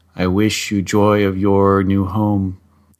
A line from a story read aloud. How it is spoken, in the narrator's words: he purred